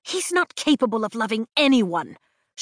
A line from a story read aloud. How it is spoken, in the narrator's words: she hisses in my ear